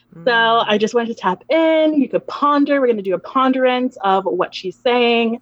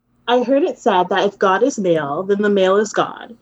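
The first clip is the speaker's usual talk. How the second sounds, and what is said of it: Soothing teacher voice. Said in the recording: “I'm going to try to use my teacher voice, soothing.”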